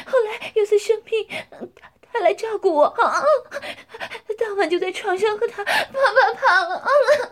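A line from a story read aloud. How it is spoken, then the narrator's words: Breathless panting. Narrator (Chinese): 江环被撞得娇喘吁吁，接着说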